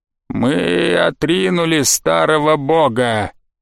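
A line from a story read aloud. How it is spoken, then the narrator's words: Creaky voice. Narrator (Russian): Проскрипела черепуха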